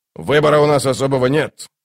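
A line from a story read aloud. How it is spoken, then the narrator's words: Grumbling. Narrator (Russian): проворчал Дуджик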